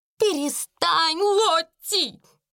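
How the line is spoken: Shrill squeal. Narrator (Russian): взвизгнула мисс Амели

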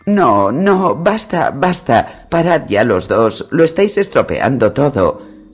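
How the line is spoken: Sobbing. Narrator (Spanish): sollozaba Sansa sin cesar

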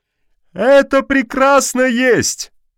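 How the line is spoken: Loud approval. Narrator (Russian): громко одобрил опекун

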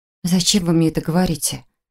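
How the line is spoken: Near-whisper, unsteady. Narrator (Russian): почти шепотом спросила я, не доверяя собственному голосу

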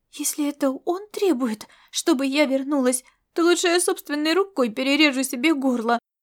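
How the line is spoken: Trembling voice. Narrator (Russian): проговорила она дрожащим голосом

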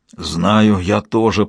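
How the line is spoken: Father's hoarse rasp. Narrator (Russian): прохрипел в ответ ее отец

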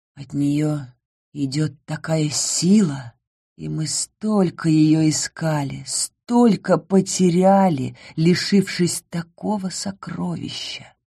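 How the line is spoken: Quiet reply. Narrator (Russian): тихо ответил Ингар

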